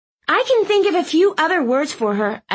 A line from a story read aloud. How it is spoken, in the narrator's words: I snapped